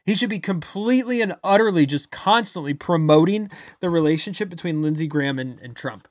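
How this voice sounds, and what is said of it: Loud, yelling angry delivery. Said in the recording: “sorry I'm yelling today, but I'm just so infuriated”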